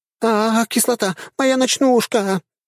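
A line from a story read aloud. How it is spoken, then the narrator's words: Woman shouting in alarm. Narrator (Russian): закричала грудастая дриада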